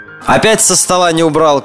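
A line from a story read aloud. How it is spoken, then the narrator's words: Mother's shout from kitchen. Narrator (Russian): крикнула с кухни мама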